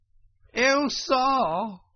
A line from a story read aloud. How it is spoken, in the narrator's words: cried the toad, crying afresh